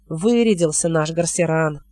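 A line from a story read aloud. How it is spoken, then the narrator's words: Disdainful grumble, hidden youth. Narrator (Russian): пренебрежительно проворчал скрытый в листьях парень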